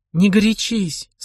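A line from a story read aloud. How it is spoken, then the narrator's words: Calm reply. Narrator (Russian): спокойно ответила Миран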